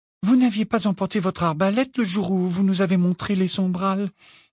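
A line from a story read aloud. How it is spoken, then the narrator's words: Timid. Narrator (French): dit timidement Hermione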